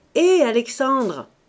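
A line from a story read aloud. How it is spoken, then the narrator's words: Shouted. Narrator (French): cria-t-il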